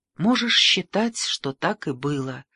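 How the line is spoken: Whispered. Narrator (Russian): прошептала она

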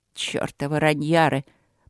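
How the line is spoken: Muttered. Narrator (Russian): пробормотал он

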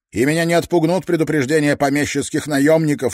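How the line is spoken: Sharp. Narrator (Russian): резко произнес он

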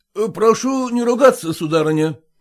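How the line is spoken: Stern. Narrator (Russian): строго проговорил Селезенкин

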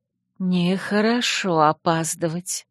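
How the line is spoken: Gentle reproach. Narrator (Russian): мягко пожурила она

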